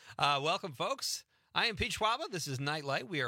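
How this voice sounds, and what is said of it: Usual voice. Nothing is said of it.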